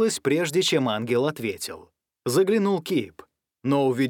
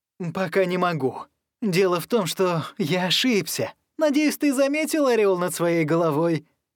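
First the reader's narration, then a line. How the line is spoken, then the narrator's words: Nervous laughter. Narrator (Russian): Янг нервно расхохотался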